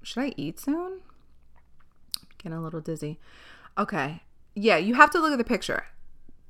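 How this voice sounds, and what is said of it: Hoarse, fading voice. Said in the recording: “I'm losing my fucking voice... I'm losing my voice”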